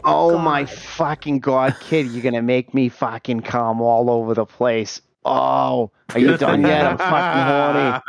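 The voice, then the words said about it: Imitated Boston accent. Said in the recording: “she talks like a Boston accent.”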